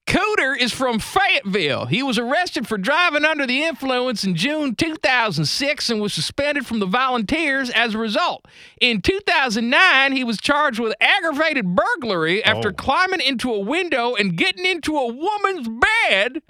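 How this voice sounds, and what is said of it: Put-on Southern accent. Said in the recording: “in the Southern accent”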